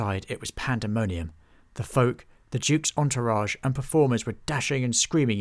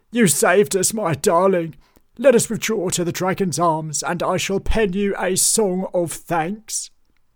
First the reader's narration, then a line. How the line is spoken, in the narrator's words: cried Bartholomew